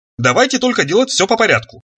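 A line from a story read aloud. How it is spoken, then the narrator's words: Brisk, cheerful declaration. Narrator (Russian): бодро заявил он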